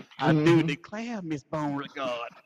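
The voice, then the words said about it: Put-on Southern belle accent. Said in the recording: “I'm talking like a Southern Belle all of a sudden.”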